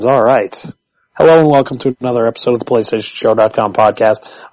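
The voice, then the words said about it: Hoarse voice. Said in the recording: “the very hoarse-sounding”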